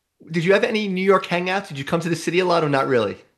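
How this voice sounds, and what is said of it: New York accent. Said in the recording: “You mentioned my accent when you heard me, so you're a New York girl at heart.”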